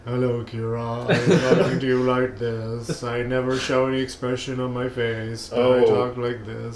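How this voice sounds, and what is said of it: Flat monotone character voice. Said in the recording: “sexy gay monotone”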